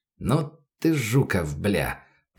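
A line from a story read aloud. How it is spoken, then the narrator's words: Mumbled. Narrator (Russian): пробормотал Рус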